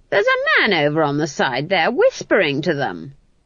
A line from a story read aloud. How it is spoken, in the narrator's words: Granny said, in a piercing voice that made one actor drop his wooden sword